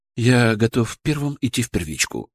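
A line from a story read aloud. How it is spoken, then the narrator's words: Calm and confident. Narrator (Russian): сказал он спокойно и уверенно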